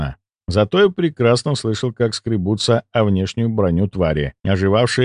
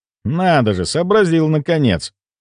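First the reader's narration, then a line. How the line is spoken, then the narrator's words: Irritated. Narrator (Russian): раздраженно произнес я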